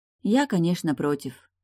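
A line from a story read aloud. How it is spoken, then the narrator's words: Sigh. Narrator (Russian): вздохнула Арьяна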